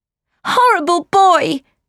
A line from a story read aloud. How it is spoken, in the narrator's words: shouted